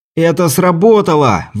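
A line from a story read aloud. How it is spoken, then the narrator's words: Inventor's shout. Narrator (Russian): выкрикнул изобретатель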